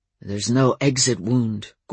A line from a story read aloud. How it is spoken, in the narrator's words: Gordon muttered